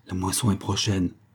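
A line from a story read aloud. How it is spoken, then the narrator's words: Murmuring watchman. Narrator (French): murmura le veilleur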